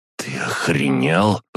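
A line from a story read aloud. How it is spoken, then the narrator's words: Hiss. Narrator (Russian): прошипел он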